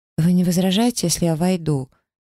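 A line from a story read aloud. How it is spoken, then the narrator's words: Hesitant, fearful question. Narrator (Russian): Неуверенно спросила я, боясь даже заглянуть внутрь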